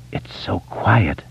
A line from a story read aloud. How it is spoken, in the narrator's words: Beverly says softly